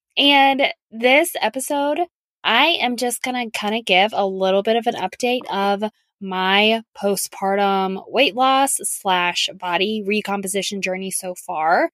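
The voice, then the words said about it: Hoarse, croaky voice. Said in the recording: “like I have a frog in my throat, it's because seasonal allergies are kicking in right now. I always start to lose my voice”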